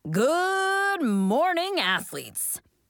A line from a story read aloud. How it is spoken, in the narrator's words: booms Coach Sean